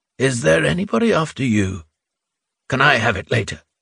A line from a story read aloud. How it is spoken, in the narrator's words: asked tenderly